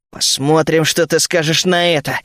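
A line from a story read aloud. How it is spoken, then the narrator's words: Angry, spat out. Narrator (Russian): зло выплюнул я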